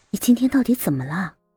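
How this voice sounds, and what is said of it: Quiet, hushed question. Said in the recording (Chinese): “小声的问他”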